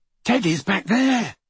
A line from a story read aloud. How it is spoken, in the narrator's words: he said breathlessly